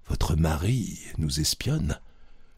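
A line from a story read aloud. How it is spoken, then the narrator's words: Whispered. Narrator (French): Je murmurai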